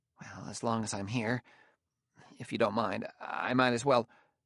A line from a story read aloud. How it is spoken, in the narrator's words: he mumbled